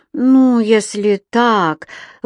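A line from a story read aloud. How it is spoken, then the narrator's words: Exhaled. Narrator (Russian): выдохнул Роулинстон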